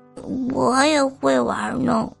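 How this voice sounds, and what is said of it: Quiet mumbling voice. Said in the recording (Chinese): “小声嘀咕着”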